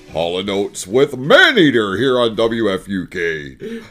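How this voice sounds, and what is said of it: Exaggerated radio announcer voice. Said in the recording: “you really are enjoying your radio voice today”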